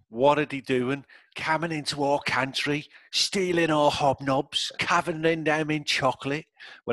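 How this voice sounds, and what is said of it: Put-on Australian-sounding accent. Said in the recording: “it's always like a sort of Cockney accent... That was like Australian. That was like Australian. That wasn't Cockney.”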